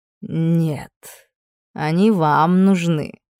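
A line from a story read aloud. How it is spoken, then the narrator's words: Smiling purr. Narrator (Russian): с сияющей улыбкой промурлыкал Ксавье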